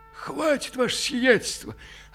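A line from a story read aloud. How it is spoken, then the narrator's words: Confused hoarse croak. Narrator (Russian): растерянно хрипнул Иона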